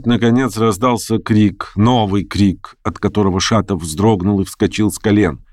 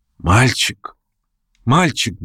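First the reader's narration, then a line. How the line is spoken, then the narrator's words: Pained voice, asking. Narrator (Russian): болезненным голосом спросила она Арину Прохоровну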